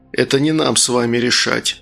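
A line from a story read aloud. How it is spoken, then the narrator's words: Dry remark. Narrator (Russian): сухо заметил Логос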